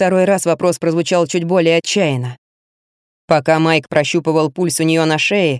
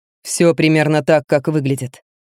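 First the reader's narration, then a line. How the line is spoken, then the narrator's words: Plain. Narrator (Russian): ответил ему Генри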